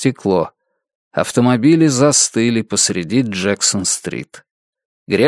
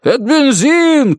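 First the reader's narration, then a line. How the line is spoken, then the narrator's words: Shout. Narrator (Russian): крикнул приемщик фотолаборатории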